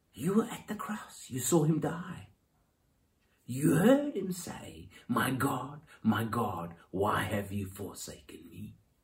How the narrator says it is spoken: Satan whispering in her ear

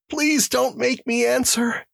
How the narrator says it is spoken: pleaded the prisoner

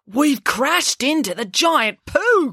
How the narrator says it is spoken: cried Finn

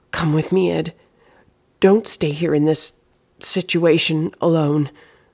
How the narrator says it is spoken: Amelia blurted out

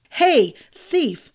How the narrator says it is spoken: the man cried

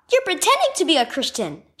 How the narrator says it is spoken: she exclaimed

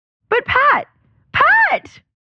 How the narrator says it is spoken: Marilyn exclaimed

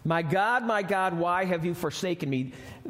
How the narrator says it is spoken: He shouted this

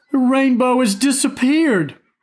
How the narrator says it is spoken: brother cried

